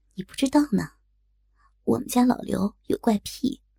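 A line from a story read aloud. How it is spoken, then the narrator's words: Hushed, low. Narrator (Chinese): 丽姐忽然放低了声音，小声冲我说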